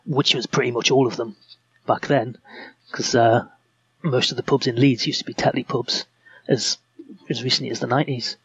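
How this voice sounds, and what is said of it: Northeast English accent. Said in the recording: “I can detect from your accent that you sound like you haven't always lived in Leeds ... I grew up in the northeast”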